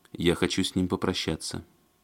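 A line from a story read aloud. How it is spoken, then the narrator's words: Quiet but insistent. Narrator (Russian): тихо, но настойчиво сказала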